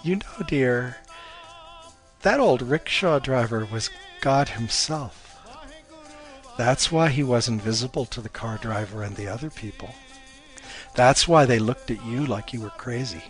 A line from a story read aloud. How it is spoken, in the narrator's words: Her mom chuckled and said